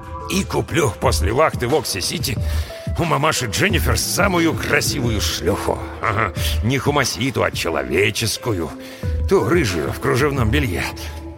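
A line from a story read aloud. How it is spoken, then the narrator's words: Muttered. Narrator (Russian): пробормотал Брэм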